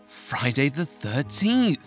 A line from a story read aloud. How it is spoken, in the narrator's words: gasped Marianne